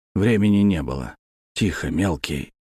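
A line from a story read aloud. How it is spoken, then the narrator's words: Whisper, lips barely moving. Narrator (Russian): прошептал я, почти не размыкая губ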